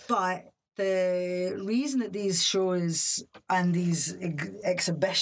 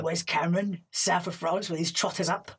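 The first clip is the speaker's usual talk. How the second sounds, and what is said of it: Danny Dyer impression. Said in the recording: “your Danny Dyer impression ... I love doing a Danny Dyer”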